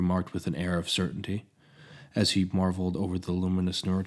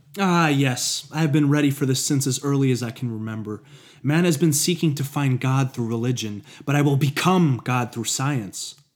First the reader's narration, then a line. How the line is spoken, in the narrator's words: Hephaestus proclaimed as he laughed hysterically, with an intensity that echoed through the cold, fluorescent laboratory